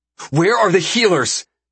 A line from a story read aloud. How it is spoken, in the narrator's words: He shouts at the guards savagely